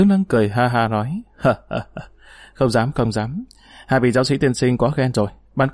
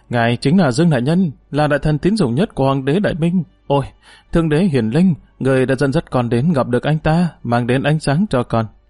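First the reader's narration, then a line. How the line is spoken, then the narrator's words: Panicked shout. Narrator (Vietnamese): Hòa Giả Á Tam mới tá hỏa tam tinh mà la lên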